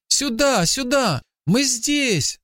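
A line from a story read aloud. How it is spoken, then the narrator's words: Boy shouting. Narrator (Russian): закричал мальчик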